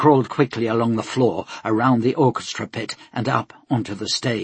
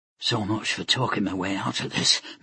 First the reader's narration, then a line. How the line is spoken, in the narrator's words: Mikael muttered to himself